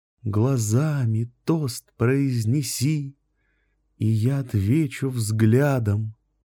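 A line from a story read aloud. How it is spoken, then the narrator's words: Soft, slow, tender singing. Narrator (Russian): запела она тихо, медленно, нежно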